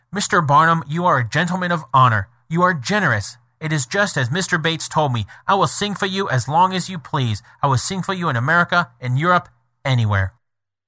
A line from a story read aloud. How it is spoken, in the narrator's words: cordially grasped me by the hand and exclaimed